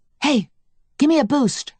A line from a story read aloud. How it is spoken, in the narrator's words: I whispered